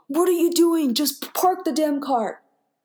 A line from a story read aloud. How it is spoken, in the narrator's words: he yelled at me